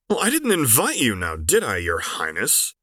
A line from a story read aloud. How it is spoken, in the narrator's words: Quinn snapped at Alun